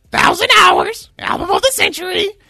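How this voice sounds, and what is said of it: Imitates another person's voice. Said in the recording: “That's my Willie impression.”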